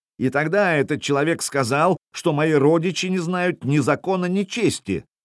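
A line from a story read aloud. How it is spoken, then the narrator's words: Yelling, big man. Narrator (Russian): вопил высоченный плечистый мужик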